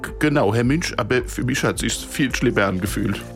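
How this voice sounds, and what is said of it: Put-on Hessian German dialect. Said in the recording (German): “der erste hessische sprechende und bellende Hund ... auf Hessisch”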